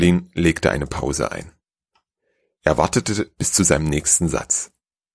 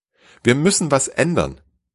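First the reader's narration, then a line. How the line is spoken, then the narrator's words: Near shout. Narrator (German): sagte, ja schrie fast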